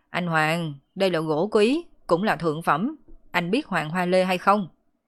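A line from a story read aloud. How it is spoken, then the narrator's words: Loud, prompt. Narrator (Vietnamese): Vương Tiểu Vĩ lập tức lớn tiếng nói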